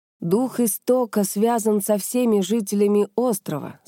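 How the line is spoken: Plain. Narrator (Russian): сказал Шин

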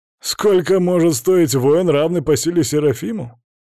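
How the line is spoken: Loud laughter. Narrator (Russian): Расхохотался Метатрон

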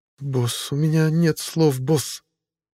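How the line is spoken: Breathless, agitated, forced out. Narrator (Russian): выдавила Энни, задыхаясь от волнения

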